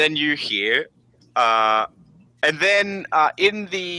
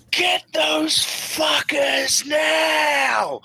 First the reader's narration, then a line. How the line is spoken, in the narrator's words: he just shouts